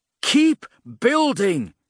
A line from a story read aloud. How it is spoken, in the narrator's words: he shouted back